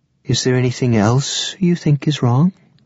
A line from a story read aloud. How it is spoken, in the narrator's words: Lavinia asked, her voice dangerously sweet